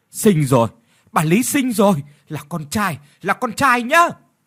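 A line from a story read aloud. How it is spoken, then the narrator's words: Woman shouting from inside. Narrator (Vietnamese): có tiếng từ bên trong của một người đàn bà la lên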